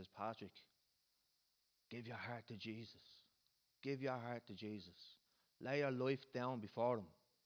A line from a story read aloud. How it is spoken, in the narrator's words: whispered into his ear and I says